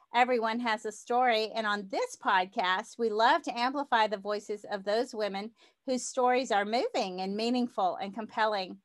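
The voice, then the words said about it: Southern American accent. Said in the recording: “you're going to detect my Southern accent probably more than normal because it comes out when I talk to fellow Southerners”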